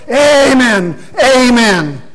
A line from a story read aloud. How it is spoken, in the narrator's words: all the ducks shout